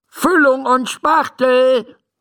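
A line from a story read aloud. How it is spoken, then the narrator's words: Calling out. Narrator (German): ruft Dr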